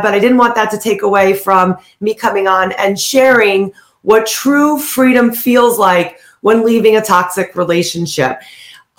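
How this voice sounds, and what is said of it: Slightly hoarse voice. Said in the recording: “I'm a little bit hoarse,”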